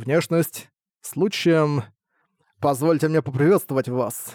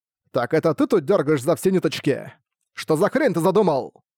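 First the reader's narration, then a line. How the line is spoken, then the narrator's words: Barked. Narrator (Russian): Рявкнул Люк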